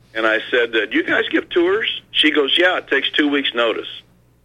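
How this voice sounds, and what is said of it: Missouri accent. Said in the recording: “where are you from? I said, Missouri. And she said, I love your accent.”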